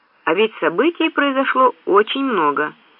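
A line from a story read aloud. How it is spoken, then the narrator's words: Even steady voice. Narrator (Russian): ровным голосом продолжал Дрейк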